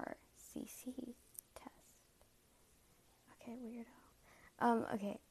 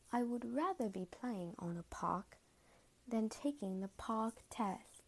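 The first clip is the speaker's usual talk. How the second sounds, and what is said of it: Put-on British accent. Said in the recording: “British accent.”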